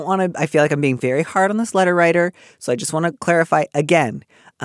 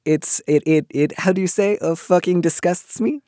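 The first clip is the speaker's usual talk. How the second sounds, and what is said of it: Bad put-on French accent. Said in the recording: “That was a very bad French accent.”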